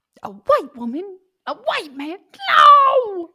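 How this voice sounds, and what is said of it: Imitates a TV character's voice. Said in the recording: “In my Schmidt voice.”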